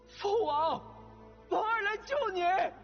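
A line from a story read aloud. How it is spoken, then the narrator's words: Crying out. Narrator (Chinese): 他呼喊着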